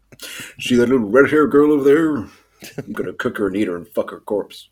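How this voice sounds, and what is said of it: Good impression of film character. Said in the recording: “really good impression ... a good old Mad Marley impression”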